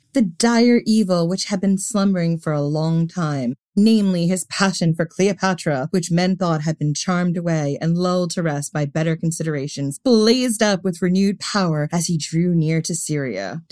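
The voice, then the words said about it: Sarcastic, eye-rolling reading tone. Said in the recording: “Did my voice give you the eye roll I'm feeling?”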